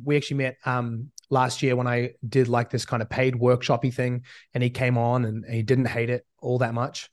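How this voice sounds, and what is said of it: Hybrid New Zealand-American accent. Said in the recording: “my accent at this point is very hybrid. I'm mistaken for everything from an Aussie to a Kiwi to a European... listening to about 2 hours a day of American speak... a bit of a mutt accent wise”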